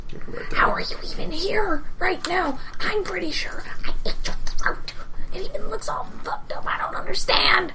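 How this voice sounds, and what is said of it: Whispering. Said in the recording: “So the secret whispered conversation. ... Secret whisper conversation.”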